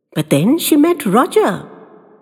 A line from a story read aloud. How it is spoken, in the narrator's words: piped Woolly cheerfully